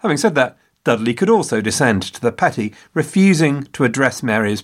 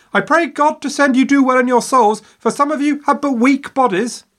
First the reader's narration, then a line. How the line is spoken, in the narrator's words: yelling at their backs